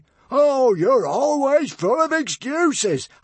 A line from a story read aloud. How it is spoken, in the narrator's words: howled Norbert furiously